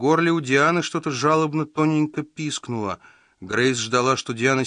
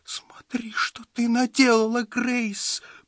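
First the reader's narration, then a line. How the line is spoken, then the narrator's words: Whimpered. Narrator (Russian): проскулила она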